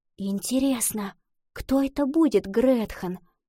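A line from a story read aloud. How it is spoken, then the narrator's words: Whispered. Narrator (Russian): прошептала Лотти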